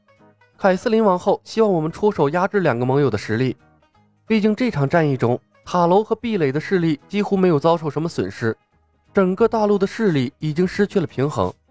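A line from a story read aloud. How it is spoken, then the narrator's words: Sighing, low explanation. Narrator (Chinese): 冯公子叹息了一声，低声解释道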